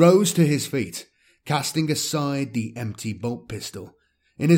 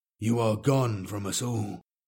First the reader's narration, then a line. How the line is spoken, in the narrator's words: Xavian spoke softly